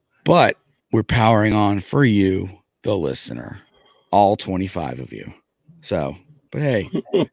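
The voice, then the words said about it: Hoarse, worn-out voice. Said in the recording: “As you can hear... my voice is shot”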